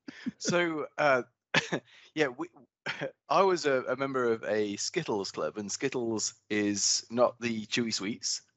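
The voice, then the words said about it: British accent. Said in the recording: “it comes better with your accent and being from there ... in the UK”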